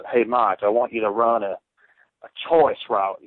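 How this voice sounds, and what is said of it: Thick West Virginian accent. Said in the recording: “this big, big, thick West Virginian accent.”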